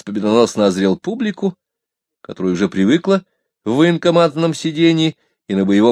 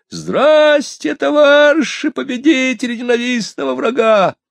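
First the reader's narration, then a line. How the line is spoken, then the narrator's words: Shrill, frantic proclamation. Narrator (Russian): Мужичок-парничок набрал в грудь воздуху и провозгласил истошным голосом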